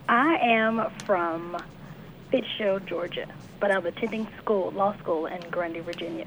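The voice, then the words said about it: Slight Georgia accent. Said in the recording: “I thought I heard a little bit of Georgia in that accent.”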